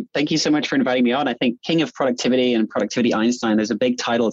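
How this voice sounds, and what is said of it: New Zealand accent. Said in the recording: “a Kiwi ... listening to your accent”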